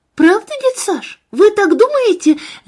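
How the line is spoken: Joyful girl exclaiming. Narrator (Russian): радостно воскликнула девочка

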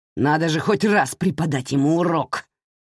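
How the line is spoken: Growl. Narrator (Russian): рыкнул тот

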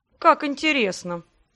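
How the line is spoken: Amused snort. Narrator (Russian): хмыкнул император

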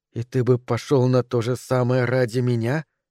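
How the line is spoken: Whisper in ear. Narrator (Russian): прошептала она в его правое ухо

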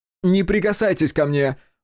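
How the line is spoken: Screaming. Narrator (Russian): завопил Хаси

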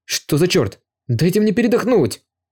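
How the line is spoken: Exclamation. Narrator (Russian): воскликнул Юэ

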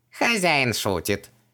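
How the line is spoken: Cheerful giggle. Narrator (Russian): весело хихикнул Хубаксис

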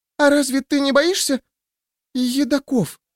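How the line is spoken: Girl's timid babble. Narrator (Russian): пролепетала девушка

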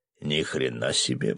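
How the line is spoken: Muttered. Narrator (Russian): пробормотал рыбак

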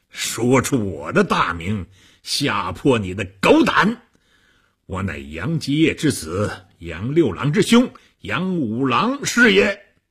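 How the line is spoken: Monk laughing heartily. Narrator (Chinese): 和尚哈哈大笑

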